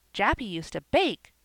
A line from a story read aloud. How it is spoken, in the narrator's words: cried little Davy